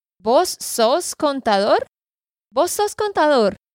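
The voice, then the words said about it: Put-on regional Colombian Spanish accent. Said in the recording (Spanish): “Con ese, más o menos ese acento, lo dirían en esa área de Colombia.”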